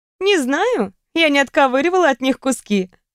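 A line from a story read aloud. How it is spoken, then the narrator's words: Laughing reply. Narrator (Russian): рассмеялась я в ответ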